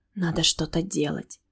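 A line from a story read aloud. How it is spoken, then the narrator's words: Whisper. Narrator (Russian): прошептала я в темноту комнаты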